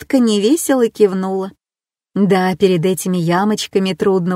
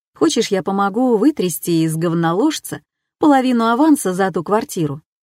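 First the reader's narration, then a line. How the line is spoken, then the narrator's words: Plain. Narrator (Russian): спросил Эр-Джей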